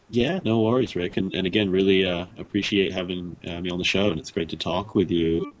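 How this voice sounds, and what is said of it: Mixed British and Australian accent. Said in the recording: “that accent that I'm picking up ... I'm from the United Kingdom originally, and my dad's half Australian ... any kind of a funky accent”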